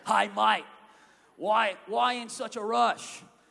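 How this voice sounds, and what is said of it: Attempted Australian accent. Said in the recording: “I'm really bad at like Australian accents.”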